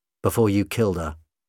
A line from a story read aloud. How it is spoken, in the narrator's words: the doctor said coldly